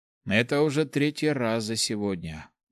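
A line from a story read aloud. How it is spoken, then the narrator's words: Young man's grumble. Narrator (Russian): буркнул парень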